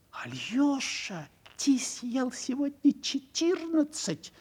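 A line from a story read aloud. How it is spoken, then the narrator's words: Timid whisper. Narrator (Russian): робко шептала Амалия Ивановна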